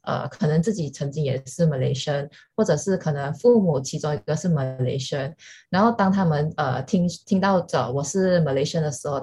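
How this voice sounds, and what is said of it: Malaysian-accented Mandarin. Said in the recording (Chinese): “一听我的口音就知道我是马来西亚人”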